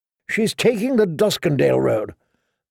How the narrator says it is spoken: Sir Cleos muttered

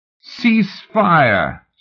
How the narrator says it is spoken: Swing shouted and laughed

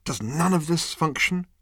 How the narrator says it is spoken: he said savagely

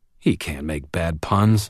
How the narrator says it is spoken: I muttered

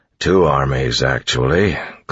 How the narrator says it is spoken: Clubs grumbled

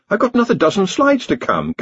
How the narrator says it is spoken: gasped Ponder

